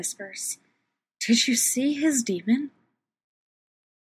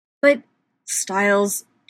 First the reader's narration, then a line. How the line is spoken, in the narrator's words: Derek growls